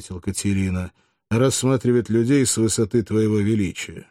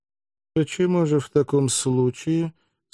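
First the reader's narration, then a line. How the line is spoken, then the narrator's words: Calm, mocking question. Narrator (Russian): спросил Сулла спокойным тоном, но скривив губы в насмешливую улыбку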